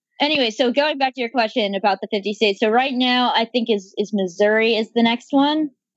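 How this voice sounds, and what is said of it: Slight Southern American accent. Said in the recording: “you've got this a bit of a Southern accent ... I think I hear it”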